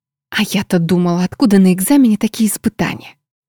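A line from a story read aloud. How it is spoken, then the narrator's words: Barely audible fervent whisper. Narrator (Russian): Чуть слышно, но горячо прошептала мне подруга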